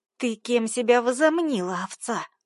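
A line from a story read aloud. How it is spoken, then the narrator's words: Hiss. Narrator (Russian): Прошипела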